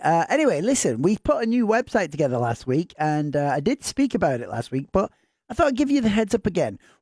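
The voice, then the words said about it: Northern English accent. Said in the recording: “in your Northern English accent, I did not understand a word you said”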